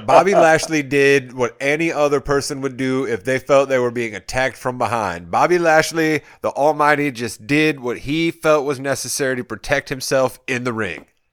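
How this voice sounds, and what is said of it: Imitates another person's voice. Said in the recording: “my MVP impersonation? ... I did. That was not bad. That was not bad at all.”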